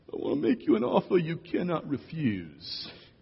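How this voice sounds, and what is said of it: Sicilian accent, mobster-style. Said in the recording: “in a Sicilian accent”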